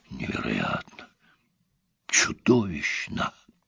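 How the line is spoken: Repeated muttering. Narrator (Russian): Тихо стоящий с ним рядом профессор то и дело бормотал

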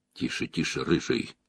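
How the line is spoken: Young man speaking quietly. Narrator (Russian): юноша тихо произнес

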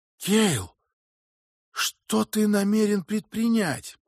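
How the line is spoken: Frightened whisper. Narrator (Russian): Скарретт испуганно прошептал

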